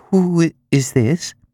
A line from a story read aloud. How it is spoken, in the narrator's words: she asked, faltering